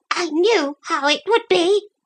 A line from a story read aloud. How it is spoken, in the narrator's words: she kept saying in a whining voice